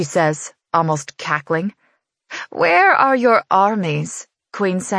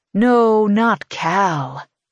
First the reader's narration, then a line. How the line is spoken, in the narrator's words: he says, purring